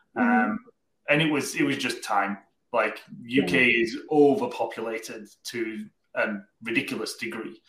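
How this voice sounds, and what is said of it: Welsh accent, not Canadian. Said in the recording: “the accent is definitely not Canadian ... we originally came from a place called Cardiff in South Wales in the UK”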